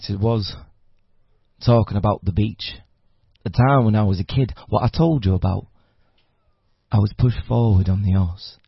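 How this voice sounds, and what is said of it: Southern Yorkshire accent. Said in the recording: “my accent ... it's basically a Southern Yorkshire accent, which is quite fun.”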